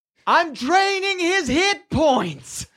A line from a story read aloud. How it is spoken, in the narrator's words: You hear her yell out